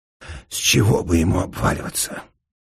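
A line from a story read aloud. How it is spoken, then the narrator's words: Strained wheeze. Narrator (Russian): просипел Распетрович, вылезая из-под тяжелой туши городового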